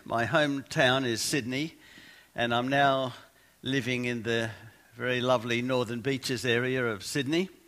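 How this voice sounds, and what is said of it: Australian accent. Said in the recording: “you might be able to tell from my accent, I'm Australian.”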